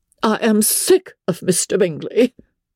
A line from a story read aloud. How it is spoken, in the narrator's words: cried his wife